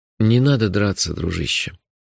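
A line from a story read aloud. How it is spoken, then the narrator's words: Gentle. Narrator (Russian): мягко сказал я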